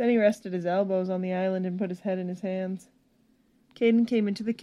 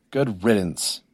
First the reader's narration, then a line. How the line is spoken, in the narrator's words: he exclaimed